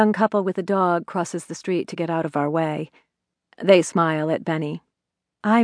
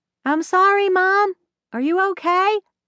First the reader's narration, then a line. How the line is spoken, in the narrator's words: he is yelling over his shoulder